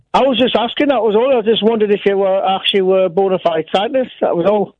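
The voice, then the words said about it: Teesside English accent. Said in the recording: “Where's that accent? ... I'm from Middlesbrough, mate. On Teesside.”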